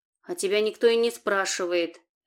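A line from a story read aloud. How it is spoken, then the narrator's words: Barked. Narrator (Russian): рявкнул Саня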